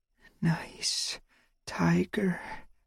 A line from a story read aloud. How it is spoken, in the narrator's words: I whispered